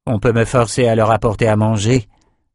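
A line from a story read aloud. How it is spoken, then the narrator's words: Grumbling. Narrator (French): grogna Lila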